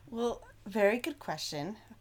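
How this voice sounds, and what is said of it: Teacher voice. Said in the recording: “That's my teacher voice coming out.”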